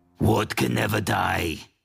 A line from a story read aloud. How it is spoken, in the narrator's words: Severo growls in his best obsidian accent